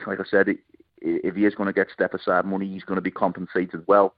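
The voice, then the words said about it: Liverpool English accent. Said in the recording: “Yeah, it would have to be. It just screamed of it. The accent just screamed of it.”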